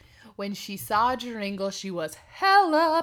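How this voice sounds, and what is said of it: Usual voice. Nothing is said of it.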